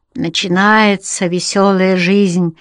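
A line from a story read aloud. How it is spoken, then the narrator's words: Sigh. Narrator (Russian): вздохнул Рек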